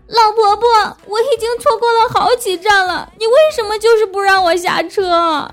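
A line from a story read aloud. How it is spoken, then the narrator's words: Child crying. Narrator (Chinese): 小朋友哭着说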